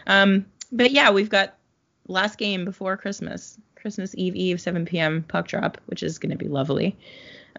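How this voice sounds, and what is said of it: Congested, sick-sounding voice. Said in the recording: “sorry about my voice to you and everyone listening, because I have a bit of a cold.”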